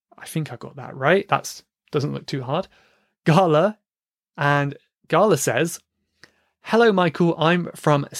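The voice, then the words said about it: British English accent. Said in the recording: “the British accent ... I'm glad my accent isn't too hard for you ... many accents in the UK”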